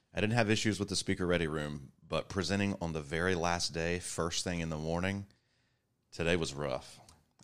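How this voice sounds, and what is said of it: Rough, raspy worn-out voice. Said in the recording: “you can probably still hear it in my voice. I got a 30-pack of your smoke history or something ... do we need to change your trach? What's this? What am I hearing here?”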